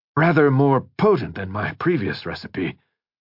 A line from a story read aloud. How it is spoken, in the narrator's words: Crane muttered